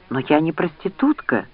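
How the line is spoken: Desperate exclamation. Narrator (Russian): в отчаянии воскликнула Лианна

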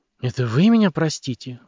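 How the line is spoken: Exclaiming. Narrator (Russian): воскликнула Люси

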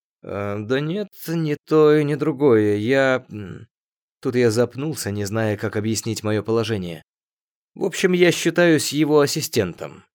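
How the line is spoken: Finishing uncertainly. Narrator (Russian): неуверенно закончил я

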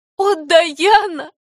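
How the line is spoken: Sobbing. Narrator (Russian): зарыдала Энни

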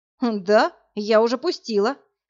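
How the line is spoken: Snorting. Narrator (Russian): хмыкнула Полина

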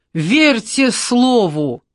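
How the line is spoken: Hoarse wheeze. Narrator (Russian): просипел Тимофей Степанович

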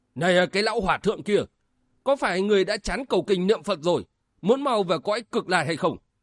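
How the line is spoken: Angry shout. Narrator (Vietnamese): Ngô Nam Vân không nén được quát lên

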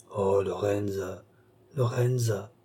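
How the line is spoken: Murmured. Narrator (French): murmura Balsamo

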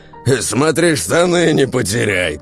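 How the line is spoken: Shouted from a queue. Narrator (Russian): тут же крикнули из очереди

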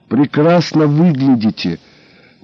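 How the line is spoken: Gloomy statement. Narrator (Russian): мрачно констатировала я

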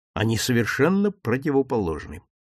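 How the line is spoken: Quiet. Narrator (Russian): тихо сказал я

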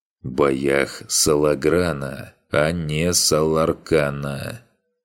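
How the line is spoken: Slow drawl. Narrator (Russian): не спеша протянул Соха

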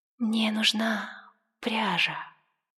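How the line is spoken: Soft speech. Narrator (Russian): она тихонько проговорила

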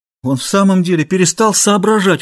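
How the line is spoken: Exclaiming. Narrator (Russian): воскликнул Ларра

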